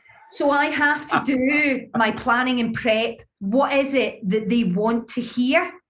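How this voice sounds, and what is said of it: Glaswegian Scottish accent. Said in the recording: “my Glaswegian accent”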